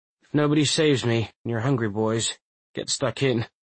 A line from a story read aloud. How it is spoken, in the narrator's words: he chuckles, trying to suppress it